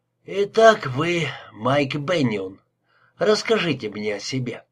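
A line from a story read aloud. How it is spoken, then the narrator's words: Old man's voice. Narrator (Russian): старческим голосом продолжал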